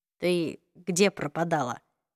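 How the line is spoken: Very quiet question. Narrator (Russian): спросил Джейс очень тихо, так что слышала только Клэри

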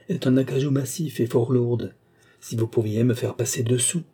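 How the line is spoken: Pleading. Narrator (French): implora-t-il

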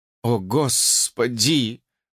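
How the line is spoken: Groaning. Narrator (Russian): простонал Джордж

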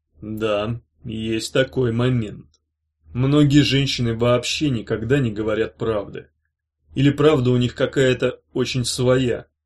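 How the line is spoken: Calm admission. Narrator (Russian): спокойно признал хранитель

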